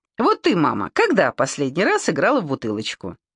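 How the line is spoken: Playfully challenging. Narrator (Russian): бросила с игривым вызовом

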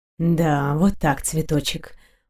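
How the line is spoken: Purring whisper. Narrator (Russian): мурлыкая прошептал

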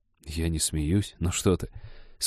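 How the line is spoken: Halting mumble. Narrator (Russian): скомканно пробормотал Женька

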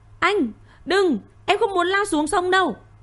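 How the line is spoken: Screaming. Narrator (Vietnamese): Tuệ Lâm hét toáng

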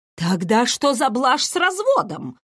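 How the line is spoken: Bewildered exclamation. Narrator (Russian): с искренним недоумением воскликнула Клементина

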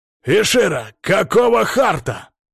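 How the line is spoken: Growl. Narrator (Russian): рыкнул Эксара

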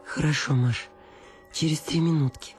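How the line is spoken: Pleading voice. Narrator (Russian): сказала Анна Акимовна умоляющим голосом

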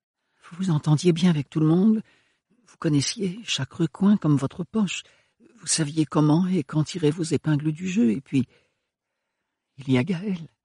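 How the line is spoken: Stammered, even lower voice. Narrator (French): balbutia Ophélie d'une voix plus basse encore

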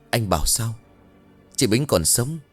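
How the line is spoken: Trembling, shocked. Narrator (Vietnamese): Thầy ban nghe xong run rẩy bảo

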